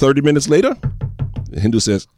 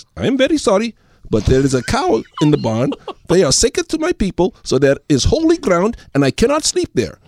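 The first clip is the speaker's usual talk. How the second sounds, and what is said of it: Accented character voice in a joke. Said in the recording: “The voices are the best. ... They're accurate.”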